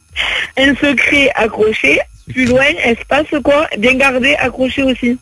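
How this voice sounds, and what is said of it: Strong regional accent, hard to understand. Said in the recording (French): “c'est ton accent, je comprends rien”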